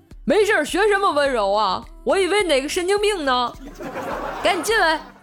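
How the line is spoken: Shouting. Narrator (Chinese): 那男的也吼了一句

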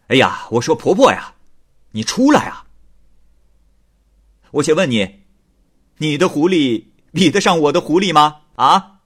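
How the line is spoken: Loud. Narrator (Chinese): 张旭一大声对巫婆说

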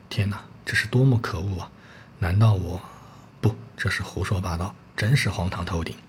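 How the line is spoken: Exclaiming. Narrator (Chinese): 感叹地说

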